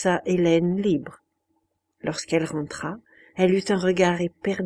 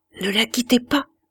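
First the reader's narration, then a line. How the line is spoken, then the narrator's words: Murmured. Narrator (French): murmura Madame de Berle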